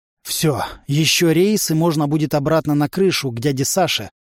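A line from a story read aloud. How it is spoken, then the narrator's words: Relieved exhale. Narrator (Russian): облегченно выдохнул Влад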